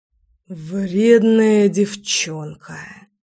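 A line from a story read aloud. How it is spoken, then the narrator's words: Exhaled. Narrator (Russian): выдохнул Заверин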